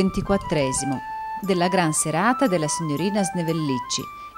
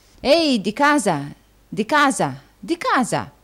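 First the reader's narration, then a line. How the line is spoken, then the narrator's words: Exclaimed. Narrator (Italian): esclamò il signor Folair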